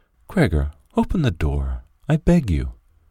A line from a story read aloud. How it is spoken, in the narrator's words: his sister whispered